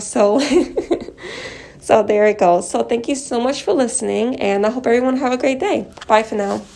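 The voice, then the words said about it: Sick, slightly off voice. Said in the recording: “if my voice sounds a little off. I am sick and I'm wearing two masks right now”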